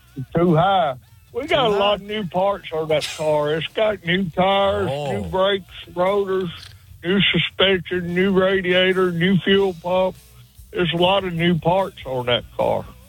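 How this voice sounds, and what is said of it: Backwoods Alabama Southern accent. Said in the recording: “I love your accent, but I think you're impersonating a real backwoods Tuscaloosa, Alabama.”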